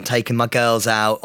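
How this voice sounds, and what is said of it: Posh-sounding voice. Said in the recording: “Why do you sound so... Does he sound different today? ... I feel like you've got posher.”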